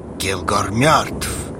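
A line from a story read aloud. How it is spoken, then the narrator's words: Through gritted teeth. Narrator (Russian): Процедил Хаул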